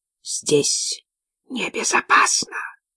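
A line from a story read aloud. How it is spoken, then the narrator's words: Male hiss. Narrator (Russian): прошипел он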